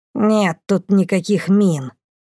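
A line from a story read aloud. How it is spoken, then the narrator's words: Grumbling. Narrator (Russian): проворчала Бумба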